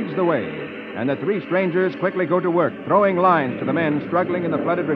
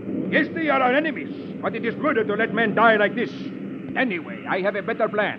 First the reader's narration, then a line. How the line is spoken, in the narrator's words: the leader shouts angrily